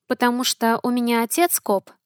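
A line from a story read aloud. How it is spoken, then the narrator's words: Quiet guess. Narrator (Russian): тихо предположила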